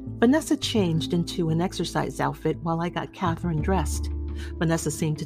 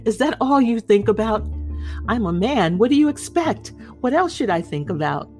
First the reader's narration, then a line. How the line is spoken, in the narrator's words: I said, laughing